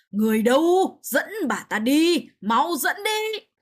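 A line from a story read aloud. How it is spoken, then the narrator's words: Pained loud cry. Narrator (Vietnamese): đau đến mức hoàng đế phải cao giọng kêu to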